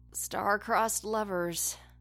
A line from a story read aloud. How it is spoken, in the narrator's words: Tristan murmured, sounding very tired